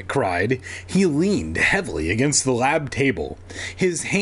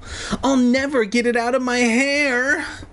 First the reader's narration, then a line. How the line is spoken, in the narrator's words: Andy wailed